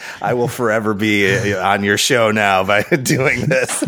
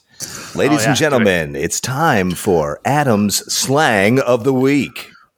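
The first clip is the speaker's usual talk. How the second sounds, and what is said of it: Radio announcer voice. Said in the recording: “in my radio announcer voice.”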